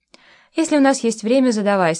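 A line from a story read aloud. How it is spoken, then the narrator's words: Calm. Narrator (Russian): спокойно сказал Миша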